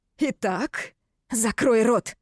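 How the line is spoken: Grim. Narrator (Russian): Мрачно сказала

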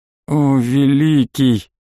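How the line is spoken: Groaning. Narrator (Russian): простонал Амальт

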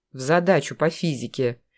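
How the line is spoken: Grumbled. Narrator (Russian): буркнул Гриша

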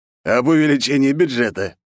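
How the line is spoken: Snorting. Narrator (Russian): хмыкнул Потапов

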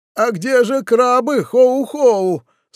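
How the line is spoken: Whimpering. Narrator (Russian): захныкал он

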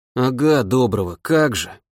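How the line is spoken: Soldier grumbling. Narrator (Russian): проворчал десантник

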